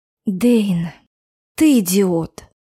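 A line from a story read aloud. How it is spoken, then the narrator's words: Weary whisper. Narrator (Russian): устало прошептала я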